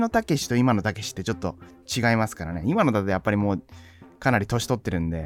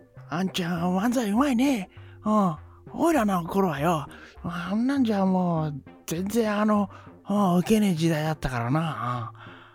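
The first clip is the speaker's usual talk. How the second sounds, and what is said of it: Imitates another person's voice. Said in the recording (Japanese): “たけしのものまね。似てねえな。全然似てねえな。... 昔のたけしはね、もっと早かったですからね”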